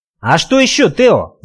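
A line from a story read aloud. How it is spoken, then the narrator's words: Skipper yelling. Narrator (Russian): заорал шкипер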